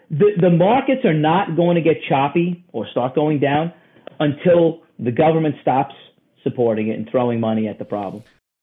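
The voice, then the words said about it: Brooklyn New York accent. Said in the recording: “I hear a Brooklyn accent. You're obviously very New York.”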